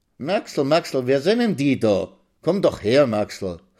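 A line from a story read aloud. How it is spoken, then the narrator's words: Old woman calling. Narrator (German): ruft die Alte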